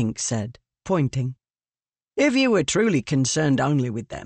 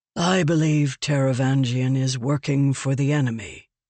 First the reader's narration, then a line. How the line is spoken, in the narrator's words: Dalinar said with a sigh